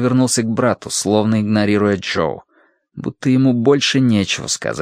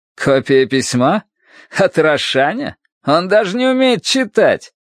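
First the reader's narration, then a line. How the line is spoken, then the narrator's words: Forced laugh. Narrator (Russian): Джо удалось рассмеяться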